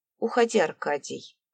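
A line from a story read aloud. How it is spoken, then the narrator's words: Cold reply. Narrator (Russian): Холодно отозвалась Диана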